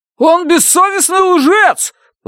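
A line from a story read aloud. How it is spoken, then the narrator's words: Distant shout from crowd. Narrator (Russian): выкрикнул кто-то из глубины зала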